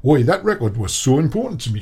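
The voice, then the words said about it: Poor put-on Newcastle accent. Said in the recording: “that is a terrible Newcastle accent. You're usually all right at accents, but that was really awful.”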